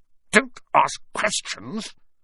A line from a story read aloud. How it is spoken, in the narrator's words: snapped his uncle